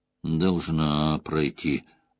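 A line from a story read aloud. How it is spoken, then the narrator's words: Muttering. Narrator (Russian): пробормотал он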